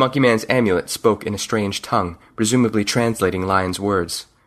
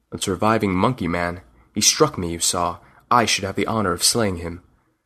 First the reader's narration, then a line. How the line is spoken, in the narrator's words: said in a low voice